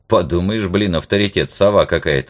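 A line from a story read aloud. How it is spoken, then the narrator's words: Irritated. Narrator (Russian): раздраженно сказал я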